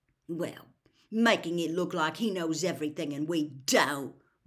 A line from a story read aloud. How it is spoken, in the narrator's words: Ron snarled